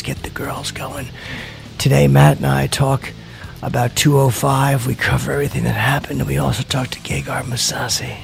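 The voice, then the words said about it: Put-on sexy radio voice. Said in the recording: “This is my new radio voice. ... It's sexy.”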